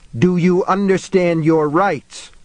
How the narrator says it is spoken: the cop screamed at them

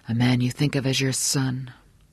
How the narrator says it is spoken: Johnny said quietly

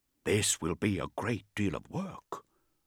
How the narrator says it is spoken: Kalhin grunted

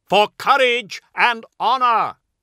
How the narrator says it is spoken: shouts

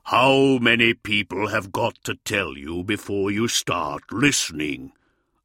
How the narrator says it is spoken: asked Russ, his voice a rumble

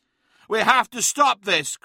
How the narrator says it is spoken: cried Araman

